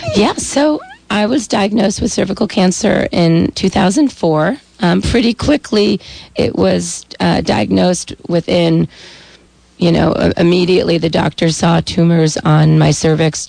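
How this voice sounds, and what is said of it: Raspy voice. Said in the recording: “Me and my raspy voice are here this morning.”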